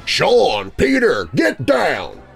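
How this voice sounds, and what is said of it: Deep voice calling out. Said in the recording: “a deep voice called out from the street”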